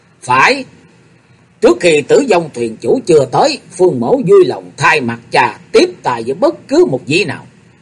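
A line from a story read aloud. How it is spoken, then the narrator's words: Slow, mildly angry. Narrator (Vietnamese): Phương Sách hơi tức giận, thủng thẳng đáp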